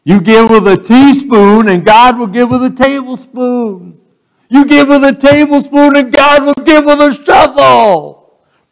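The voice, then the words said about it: Imitated southern drawl. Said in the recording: “he would say with that southern ... his southern drawl was a lot better than mine”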